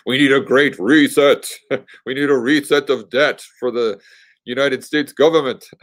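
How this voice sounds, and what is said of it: Imitates another person's voice. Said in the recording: “my Klaus impression”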